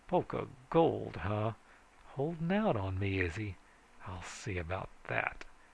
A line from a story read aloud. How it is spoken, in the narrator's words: muttering